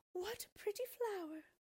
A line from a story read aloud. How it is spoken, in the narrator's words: the woman exclaimed